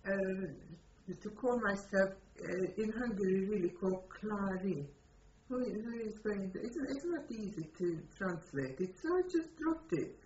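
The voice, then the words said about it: Non-native accented English. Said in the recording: “With the accent I speak with, I cannot, you see, it's such a perfect English name.”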